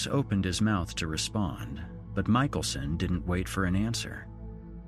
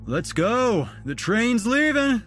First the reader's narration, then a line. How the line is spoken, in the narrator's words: Duncan yelled